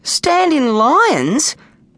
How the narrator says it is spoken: squeaked Snag

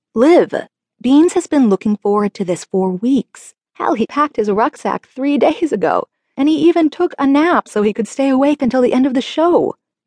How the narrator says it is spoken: my dad laughed

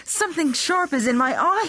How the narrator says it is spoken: he cried

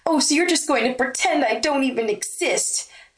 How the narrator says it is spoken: snapped the blonde

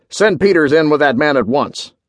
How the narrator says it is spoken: barked

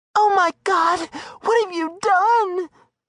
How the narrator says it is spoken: sobbed furiously

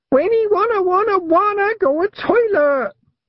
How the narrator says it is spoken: Wentworth shrieked

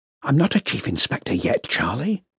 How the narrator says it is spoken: Paniatowski hissed, as if she was embarrassed to hear him use the title

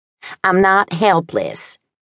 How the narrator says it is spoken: snapped

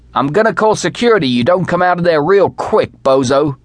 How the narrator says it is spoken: shouted

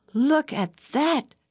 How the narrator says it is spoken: exclaimed

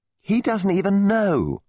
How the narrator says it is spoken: said indignantly

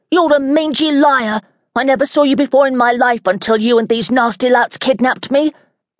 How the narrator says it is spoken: The boy yelled

